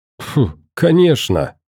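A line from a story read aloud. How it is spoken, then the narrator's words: Joyful laughter. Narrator (Russian): радостно засмеялся Никита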